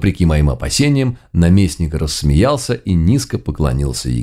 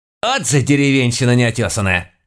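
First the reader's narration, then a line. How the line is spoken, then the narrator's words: Barked angrily. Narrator (Russian): рявкнула моя домохозяйка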